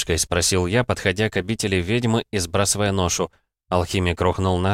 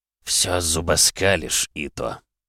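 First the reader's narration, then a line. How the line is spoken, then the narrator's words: Muttering. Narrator (Russian): пробормотал тот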